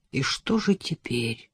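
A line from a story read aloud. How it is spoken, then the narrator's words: Dejected question. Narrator (Russian): упавшим голосом спросил Адам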